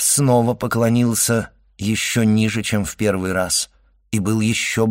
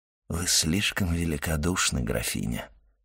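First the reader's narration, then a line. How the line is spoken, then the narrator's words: Very soft, respectful. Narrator (Russian): сказал он необычайно мягко и почтительно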